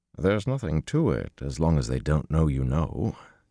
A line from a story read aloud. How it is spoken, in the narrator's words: Tom chuckled